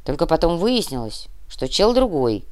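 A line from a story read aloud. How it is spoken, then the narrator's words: Grumbled. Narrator (Russian): пробурчал Доминго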